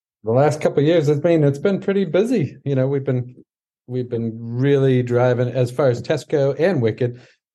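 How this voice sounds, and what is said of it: Noticeable regional accent. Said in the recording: “making fun of my voice ... We love your accent.”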